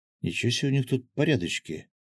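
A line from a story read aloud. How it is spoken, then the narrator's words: Stunned mutter. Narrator (Russian): ошеломленно пробормотал Гензо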